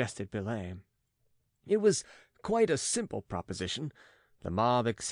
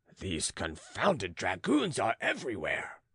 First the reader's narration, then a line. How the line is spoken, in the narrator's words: grumbled the farmer